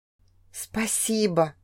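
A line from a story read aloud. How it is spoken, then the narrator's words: Whisper. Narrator (Russian): прошептала я Шелестайну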